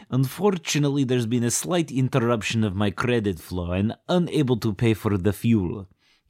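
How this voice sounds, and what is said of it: Put-on Romanian accent. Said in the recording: “formerly of Romania ... this accent”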